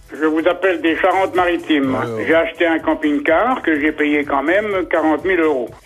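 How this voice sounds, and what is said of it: Regional French accent. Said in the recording (French): “Écoutez l'accent de”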